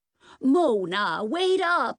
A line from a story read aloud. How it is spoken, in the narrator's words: Ida yelled after Nance